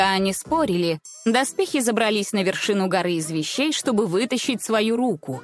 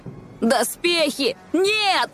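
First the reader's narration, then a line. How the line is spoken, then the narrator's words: Shouting. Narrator (Russian): закричал Морок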